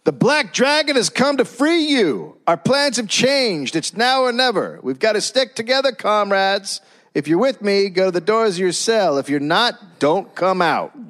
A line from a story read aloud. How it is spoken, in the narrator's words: yelled at his fellow inmates